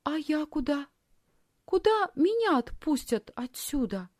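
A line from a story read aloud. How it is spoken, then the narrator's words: Timid question. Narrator (Russian): робко спросила Лисхин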